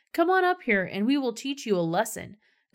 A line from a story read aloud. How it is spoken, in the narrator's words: the men from the outpost shouted up to Jonathan